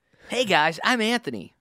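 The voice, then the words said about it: Imitates another person's voice. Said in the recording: “do an Anthony impression.”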